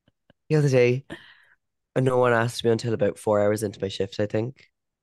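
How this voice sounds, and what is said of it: Hoarse voice. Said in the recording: “comment on my voice, that I'm hoarse all day long”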